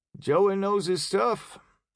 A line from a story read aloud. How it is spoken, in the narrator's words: he observed lazily